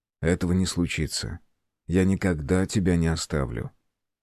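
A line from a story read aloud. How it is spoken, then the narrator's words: Firm, confident after pause. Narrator (Russian): помолчав, сказал с твердой уверенностью в голосе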